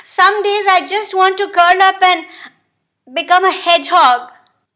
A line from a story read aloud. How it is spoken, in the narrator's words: whined the giraffe